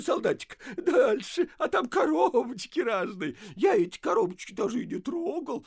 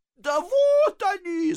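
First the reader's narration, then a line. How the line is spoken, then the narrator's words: Gleeful guard shouting. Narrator (Russian): закричал страж, радуясь произведенному эффекту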